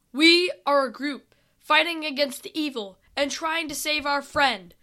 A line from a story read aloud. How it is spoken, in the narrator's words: Sam yelled as loudly as he could, because they were at least 1,000 yards away